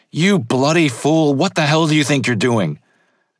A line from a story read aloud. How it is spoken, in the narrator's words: Spear yells